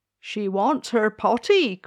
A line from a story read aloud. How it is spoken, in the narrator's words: cried the maid